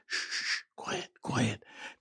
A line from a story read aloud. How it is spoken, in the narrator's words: kept whispering